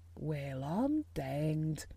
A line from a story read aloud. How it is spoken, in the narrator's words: he said as softly as if he were saying something quite different